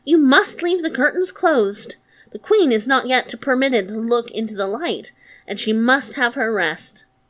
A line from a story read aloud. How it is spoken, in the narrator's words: the old woman quickly called out